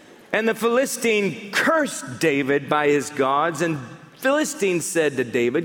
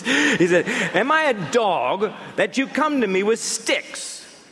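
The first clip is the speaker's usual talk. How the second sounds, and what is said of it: Put-on English accent. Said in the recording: “Apparently the Philistine had an English accent.”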